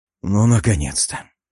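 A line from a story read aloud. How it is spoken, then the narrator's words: Relieved sigh. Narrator (Russian): Облегченно вздохнул я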